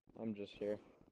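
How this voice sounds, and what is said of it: Flat, depressed-sounding voice. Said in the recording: “He sounds very depressed.”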